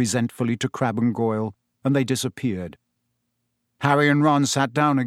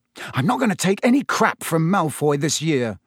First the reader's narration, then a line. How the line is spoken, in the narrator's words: he said angrily